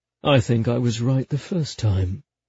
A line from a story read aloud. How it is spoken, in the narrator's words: he murmured